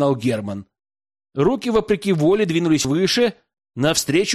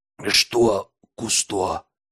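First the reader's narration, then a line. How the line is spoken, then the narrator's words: Hoarse repeated question. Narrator (Russian): Хрипло переспросил Герман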